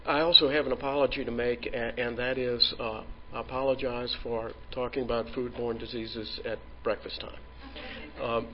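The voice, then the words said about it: New Orleans Southern American accent. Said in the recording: “welcome to New Orleans. You can probably tell by my accent that I'm a native”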